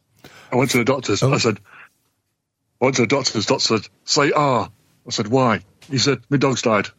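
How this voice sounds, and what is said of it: Imitates a comedian's voice. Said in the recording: “my Tommy Cooper impression”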